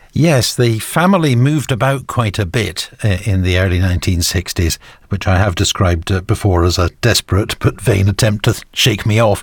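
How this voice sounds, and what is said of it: Northern English accent, not London-sounding. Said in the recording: “People might not guess that from your accent. You must have moved north fairly early on”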